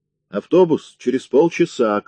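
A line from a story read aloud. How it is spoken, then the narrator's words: Shouted through window. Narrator (Russian): крикнул Соло через открытое окно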